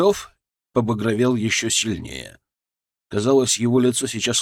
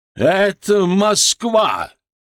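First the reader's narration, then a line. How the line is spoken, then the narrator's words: Barked. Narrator (Russian): рявкнул он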